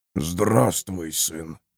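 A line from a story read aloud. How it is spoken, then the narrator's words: Through gritted teeth. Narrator (Russian): процедил герцог Десмонд Ориджин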